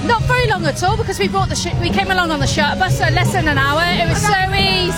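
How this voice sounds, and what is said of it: Sunderland North East English accent. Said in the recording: “You can't tell by my accent, but from Sunderland.”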